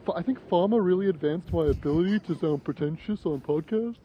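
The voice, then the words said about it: Imitates another person's voice, pretentious. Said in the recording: “This is what you sound like on the podcast ... that's what you sound like ... That's my impression of you”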